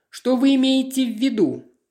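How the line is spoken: Shouting after someone. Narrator (Russian): А мисс Грир вдогонку ей крикнула

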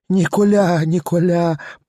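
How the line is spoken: Victim's moan. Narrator (Russian): простонала опять жертва

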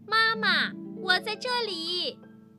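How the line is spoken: Excited loud shout. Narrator (Chinese): 小熊兴奋地大声地喊着

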